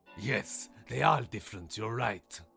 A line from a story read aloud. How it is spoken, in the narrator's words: the lion growled